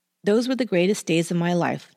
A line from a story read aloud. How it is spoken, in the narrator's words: Chapman later said